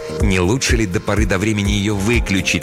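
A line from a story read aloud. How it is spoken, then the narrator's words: Plain question. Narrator (Russian): спросил Грегор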